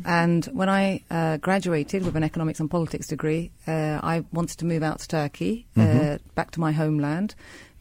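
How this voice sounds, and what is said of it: British accent. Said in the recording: “I actually grew up in the UK, as you can tell by my accent.”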